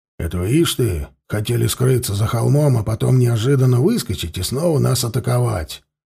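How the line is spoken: Grumbled. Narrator (Russian): проворчал Константин

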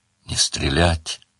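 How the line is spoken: Furious whisper. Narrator (Russian): сказал он яростным шепотом

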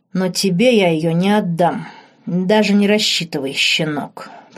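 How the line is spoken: Growl. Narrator (Russian): прорычал Марк

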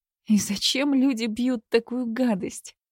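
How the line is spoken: Exhaled. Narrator (Russian): выдохнула она

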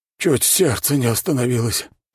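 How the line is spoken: Middle-aged man groaning. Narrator (Russian): простонал мужчина средних лет

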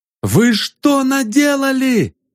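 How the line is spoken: Shouting while running. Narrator (Russian): закричал Ванзаров на бегу

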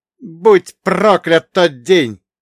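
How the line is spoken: Anguished exclamation. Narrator (Russian): воскликнул он, словно жалуясь самим небесам

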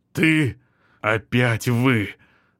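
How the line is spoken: Strained, forced out. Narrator (Russian): выдавил Бергман

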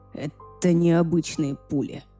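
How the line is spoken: Hoarse wheeze. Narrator (Russian): прохрипел он

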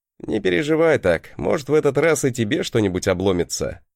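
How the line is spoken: Chuckling. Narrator (Russian): хохотнул я

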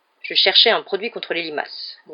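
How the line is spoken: Grumbled. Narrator (French): grogna Hagrid

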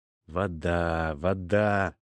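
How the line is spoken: Muttering. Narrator (Russian): бурчал я

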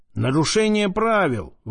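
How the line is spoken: Shouted. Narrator (Russian): выкрикнул кто-то

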